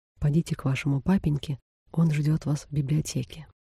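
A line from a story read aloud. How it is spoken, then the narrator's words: Whisper. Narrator (Russian): сказал шепотом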